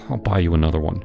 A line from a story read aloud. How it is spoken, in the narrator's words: mumbled